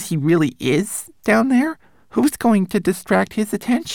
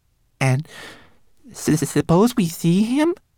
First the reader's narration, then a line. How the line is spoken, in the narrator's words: He asked in a trembling voice